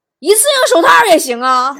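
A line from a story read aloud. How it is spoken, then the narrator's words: Loud question. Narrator (Chinese): 他又大声问了一句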